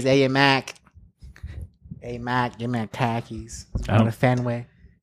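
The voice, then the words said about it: Put-on Boston accent. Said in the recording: “So it's supposed to be a Boston accent.”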